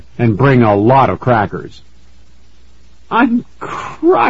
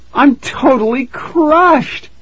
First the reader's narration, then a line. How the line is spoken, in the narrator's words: Tara wailed